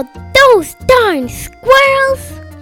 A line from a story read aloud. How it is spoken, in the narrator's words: he shook his old man fist and yelled